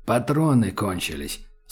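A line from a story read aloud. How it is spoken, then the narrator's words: Quiet. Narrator (Russian): сказал таджик негромко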